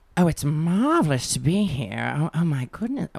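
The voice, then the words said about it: Performed character voice. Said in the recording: “do a quick impression? ... Your character. ... Judy, please.”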